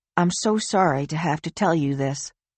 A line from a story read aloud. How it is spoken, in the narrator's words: the detective said softly